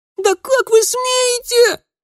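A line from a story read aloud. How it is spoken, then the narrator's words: Shrill girl's scream. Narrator (Russian): пронзительно завопила девчонка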